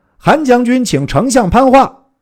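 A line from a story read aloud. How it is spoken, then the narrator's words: Loud calling. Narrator (Chinese): 韩遂使人到操寨前，高叫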